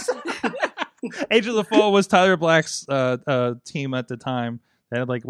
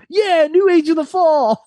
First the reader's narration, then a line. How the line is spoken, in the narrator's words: Omega screamed